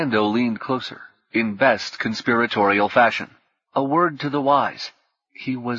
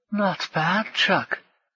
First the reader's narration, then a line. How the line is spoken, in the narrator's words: stage whispered over his shoulder